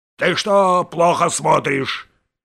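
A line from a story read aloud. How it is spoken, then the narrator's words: Shouting. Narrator (Russian): кричал он часовому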